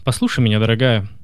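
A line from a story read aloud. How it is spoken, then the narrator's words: Deliberately calm. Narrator (Russian): нарочно спокойно произнес Герия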